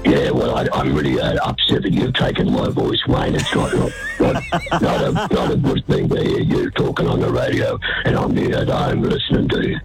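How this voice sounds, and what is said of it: Raspy, smoker-like voice. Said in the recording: “you sound like a pack-a-day smoker there ... sounds more like ... than ... sounds”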